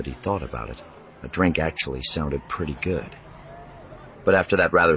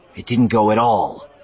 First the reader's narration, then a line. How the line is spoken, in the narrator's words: Wedge growled